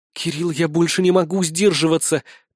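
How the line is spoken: Languid breathy exhale. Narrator (Russian): томно выдохнула она

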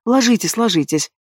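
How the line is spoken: Muttering. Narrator (Russian): Бормочу

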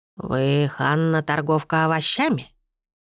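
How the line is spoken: Unpleasant hoarse old woman. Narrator (Russian): спросила старуха неприятным хриплым голосом, беспрестанно тряся головой

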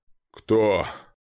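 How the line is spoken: Sleepy deep male voice. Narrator (Russian): пробасил сонный мужской голос

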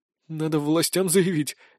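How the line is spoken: Uncertainly. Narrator (Russian): неуверенно отвечал Антон

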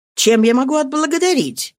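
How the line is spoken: Grateful exclamation. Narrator (Russian): воскликнула она с признательностью

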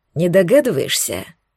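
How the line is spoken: Hoarse voice. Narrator (Russian): Получила я ответ таким же охрипшим голосом

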